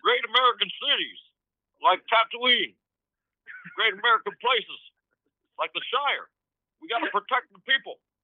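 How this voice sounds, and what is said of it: Obama impression. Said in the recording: “a pretty good Obama impression ... it's not bad, man ... That's pretty good”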